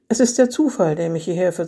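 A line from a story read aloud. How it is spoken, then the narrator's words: Calm voice. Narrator (German): sagte mit ruhiger Stimme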